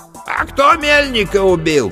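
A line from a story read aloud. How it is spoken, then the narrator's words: Shouted from a crowd. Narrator (Russian): крикнули из толпы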